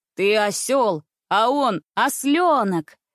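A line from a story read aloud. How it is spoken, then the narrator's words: Wild booming bass. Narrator (Russian): Диким басом загудел на весь цирк Андрюша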